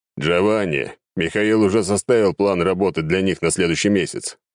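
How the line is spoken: Deep bass, bearded man. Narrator (Russian): пробасил бородатый мужик

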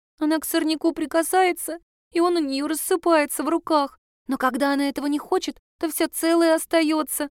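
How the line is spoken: Sobbing. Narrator (Russian): всхлипывала

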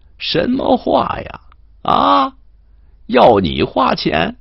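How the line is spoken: Laughing. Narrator (Chinese): 说时他……笑

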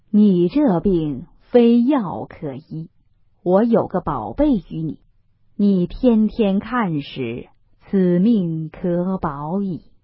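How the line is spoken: Sighing. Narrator (Chinese): 那道士叹道

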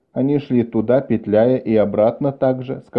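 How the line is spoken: Plain. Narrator (Russian): сказал Деро

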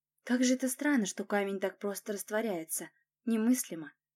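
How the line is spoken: Muttering. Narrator (Russian): пробормотала я

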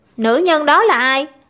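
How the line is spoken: Stern question. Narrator (Vietnamese): Địch Công nghiêm giọng hỏi

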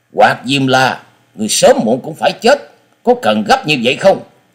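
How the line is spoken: Angry. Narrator (Vietnamese): Sinh Tử Phán Hồ Bưu giận dữ nói

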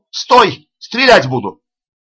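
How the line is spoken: Policeman shouting. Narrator (Russian): стоявший на посту милиционер крикнул

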